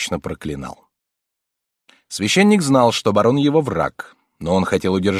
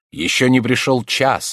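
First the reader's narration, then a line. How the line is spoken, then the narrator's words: Plain. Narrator (Russian): ответил он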